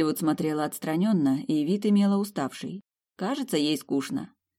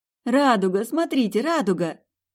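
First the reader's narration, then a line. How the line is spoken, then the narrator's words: Childlike joyful exclamation. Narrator (Russian): радуясь, как ребенок, воскликнула я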